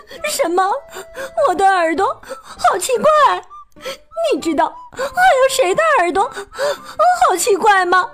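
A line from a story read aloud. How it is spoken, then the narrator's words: Crying. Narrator (Chinese): 翠翠哭着说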